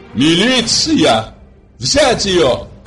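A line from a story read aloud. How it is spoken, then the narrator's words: Terrifying shout. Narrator (Russian): Таким страшным голосом прокричала супруга Симплиярова, что у многих похолодели сердца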